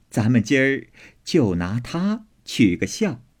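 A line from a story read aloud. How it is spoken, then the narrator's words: Laughing. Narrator (Chinese): 凤姐儿也笑说道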